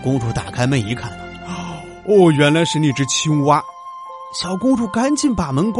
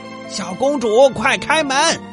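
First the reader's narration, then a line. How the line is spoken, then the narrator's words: Loud shouting. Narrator (Chinese): 有谁在一边敲门一边大声嚷嚷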